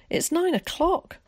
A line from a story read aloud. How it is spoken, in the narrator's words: cried Alec in alarm